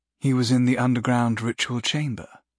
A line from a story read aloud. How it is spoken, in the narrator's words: a woman said, in a controlled, elegant voice